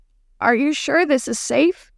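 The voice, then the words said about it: Trembling, frightened voice. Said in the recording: “asked in a trembling voice”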